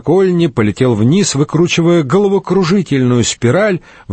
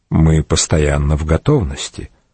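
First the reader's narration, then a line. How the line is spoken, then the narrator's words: Quiet speech. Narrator (Russian): госпитальер продолжал говорить тихо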